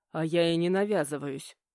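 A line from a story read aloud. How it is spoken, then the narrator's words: Snort. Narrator (Russian): хмыкнул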